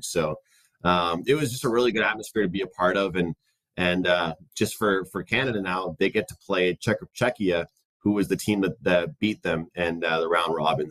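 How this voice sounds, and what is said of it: Hoarse, strained voice. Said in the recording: “I kind of lost my voice last night from cheering”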